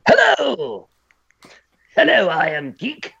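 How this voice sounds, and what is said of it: Joker-style impression voice. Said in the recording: “I could do a interesting Joker impression of Mark Hamill”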